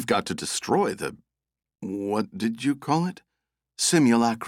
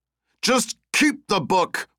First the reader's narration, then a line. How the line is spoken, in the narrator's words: Russ shouted again